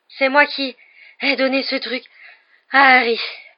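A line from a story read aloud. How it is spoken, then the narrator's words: Breathless. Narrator (French): parvint-il à dire d'un ton haletant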